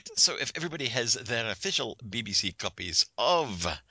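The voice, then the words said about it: Put-on Scottish accent. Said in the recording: “I lapse into a Scottish accent every time I say official BBC copies of”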